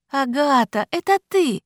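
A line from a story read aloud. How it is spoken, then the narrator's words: Joyful, smiling. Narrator (Russian): радостно улыбнулась она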